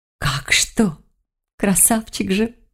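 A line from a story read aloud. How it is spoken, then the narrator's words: Breathy admiring sigh. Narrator (Russian): сказала Василиса и выдохнула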